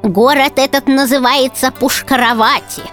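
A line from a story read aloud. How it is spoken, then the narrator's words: Old woman's toothless mumble. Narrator (Russian): прошамкала старуха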